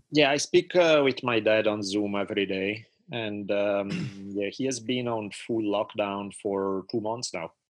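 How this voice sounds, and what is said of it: Italian accent in English. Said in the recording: “as everyone can hear from your accent, you are Italian”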